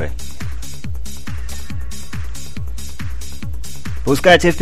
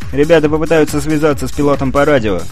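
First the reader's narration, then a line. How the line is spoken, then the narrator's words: Plain. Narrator (Russian): сказал Турис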